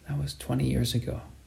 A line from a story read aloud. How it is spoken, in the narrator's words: Cruz said in a soft voice